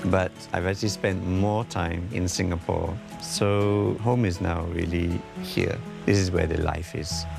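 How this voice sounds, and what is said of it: Singaporean English accent. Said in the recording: “How Singaporean am I? The accent has changed over the years... If I don't see your face, I would think that you are 100% Singaporean.”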